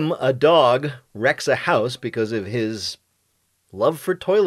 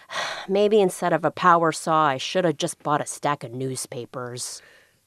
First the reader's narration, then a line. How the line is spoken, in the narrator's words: Hooper sighed deeply and said